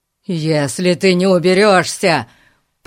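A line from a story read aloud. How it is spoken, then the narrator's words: Growling. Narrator (Russian): прорычал мистер Гун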